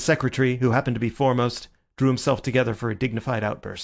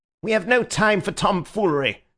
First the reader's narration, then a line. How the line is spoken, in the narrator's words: said the Secretary, breaking in savagely